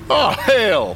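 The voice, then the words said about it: Yelled, thick southern accent. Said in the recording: “Scooter yelled with a thick southern accent.”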